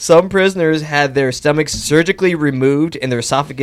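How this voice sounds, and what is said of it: Usual voice. Nothing is said of it.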